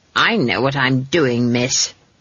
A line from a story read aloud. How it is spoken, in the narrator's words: snapped Granny